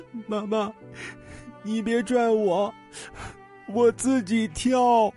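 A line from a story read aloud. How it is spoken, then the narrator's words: Crying child, comforting. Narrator (Chinese): 孩子哭声安慰妈妈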